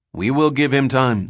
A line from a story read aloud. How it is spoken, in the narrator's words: they said